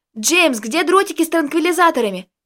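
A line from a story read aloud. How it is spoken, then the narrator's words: Frightened yell. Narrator (Russian): испуганно завопил Костик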